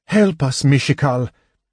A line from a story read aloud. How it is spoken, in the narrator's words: Goldmoon breathed the goddess's name